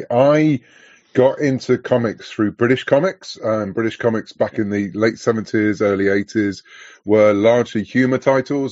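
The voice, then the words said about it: Southwest English accent. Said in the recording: “I'm from the UK, as you could probably guess from my accent. I'm from the southwest of the UK.”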